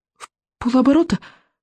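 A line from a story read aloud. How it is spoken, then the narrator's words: Hopeful sob. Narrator (Russian): с надеждой всхлипнула Камикадзе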